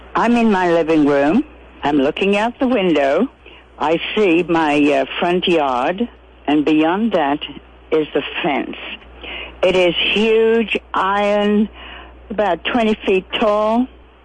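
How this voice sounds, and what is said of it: Slight British accent. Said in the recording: “she has a slight British accent”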